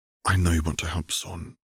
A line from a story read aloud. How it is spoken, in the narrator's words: Caitlin said quietly